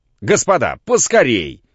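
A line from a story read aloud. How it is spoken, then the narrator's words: Shouted. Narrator (Russian): крикнул им Самойленко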